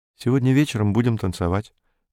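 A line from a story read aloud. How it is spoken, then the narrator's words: Quick. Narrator (Russian): быстро сказала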